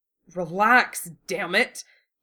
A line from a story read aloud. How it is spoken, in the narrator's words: He growled, tight with distress